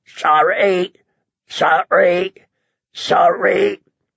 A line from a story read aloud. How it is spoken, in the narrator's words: Mormont's own raven had croaked